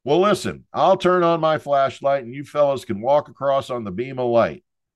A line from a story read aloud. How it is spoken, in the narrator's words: feeling sorry for these runts from FSU, I holler back through the dark